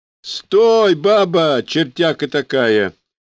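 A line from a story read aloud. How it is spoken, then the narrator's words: Cheerful yelling. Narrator (Russian): весело заорал шофер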